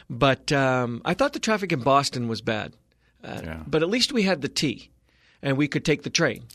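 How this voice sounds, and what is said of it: Boston accent. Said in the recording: “a decidedly Bostonian accent at times”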